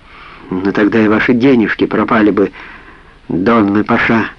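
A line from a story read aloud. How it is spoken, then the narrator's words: Calm reply. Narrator (Russian): спокойно ответила Сара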